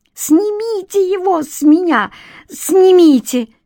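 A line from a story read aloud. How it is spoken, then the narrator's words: Terrified shriek. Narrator (Russian): взвизгнула Корсакова, насмерть перепуганная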